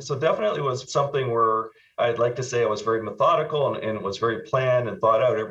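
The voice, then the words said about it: Canadian accent. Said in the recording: “This was in Canada, you can probably tell from my accent.”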